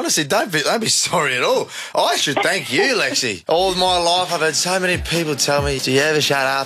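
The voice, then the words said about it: Australian accent. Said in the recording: “This is my favourite Australian accent.”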